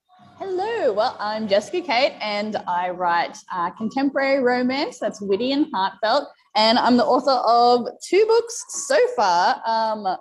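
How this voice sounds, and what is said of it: Australian accent. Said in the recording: “people are probably noticing from your accent that you're not from the United States ... I'm an Australian”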